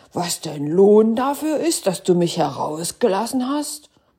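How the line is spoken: Terrible, frightening voice. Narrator (German): rief er mit einer fürchterlichen Stimme

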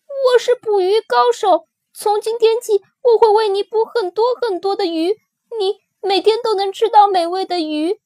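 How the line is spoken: Baby shrieking. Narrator (Chinese): 吉龙宝宝尖叫着

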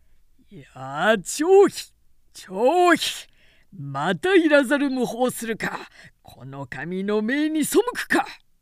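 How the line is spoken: Loud scolding. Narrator (Japanese): と大声で叱りつけた

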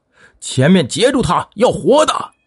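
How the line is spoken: Overjoyed loud shout. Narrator (Chinese): 小猪大喜，大声叫道

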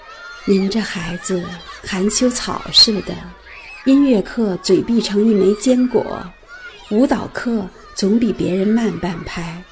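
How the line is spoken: Soft sigh. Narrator (Chinese): 他微微叹道

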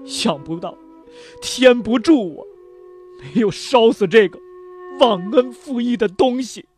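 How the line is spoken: Tearful choked voice. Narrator (Chinese): 林明珠 已是梨花带雨，他又哽咽着说

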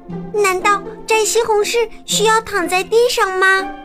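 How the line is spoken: Startled shout. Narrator (Chinese): 也吃惊的大叫

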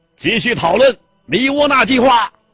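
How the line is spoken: Furious, arrogant shout. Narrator (Chinese): 暴怒而又狂傲的考尔对梅农的耳朵大喊一声

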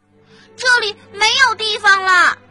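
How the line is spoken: Animals shouting in unison. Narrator (Chinese): 动物们齐声的叫道

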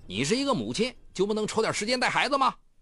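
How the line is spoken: Angry. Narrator (Chinese): 黄志军不禁怒道

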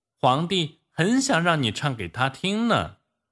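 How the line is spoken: Girl shouting loudly. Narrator (Chinese): 小女孩高声大叫

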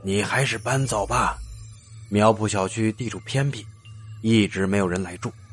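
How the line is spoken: Sighing. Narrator (Chinese): 大叔叹了口气

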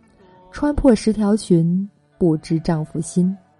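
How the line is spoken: Flat, indifferent. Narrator (Chinese): 她还是淡淡的说

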